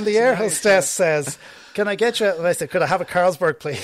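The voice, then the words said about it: Irish accent. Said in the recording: “In my Irish accent.”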